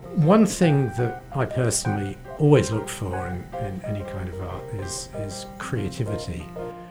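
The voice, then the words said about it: British English accent. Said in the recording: “I grew up in the UK, as you can probably tell from my voice.”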